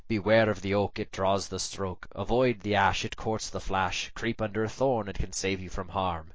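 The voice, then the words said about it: Put-on Sussex English accent. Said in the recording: “That's my Sussex accent, by the way. I have no idea what a Sussex accent sounds like.”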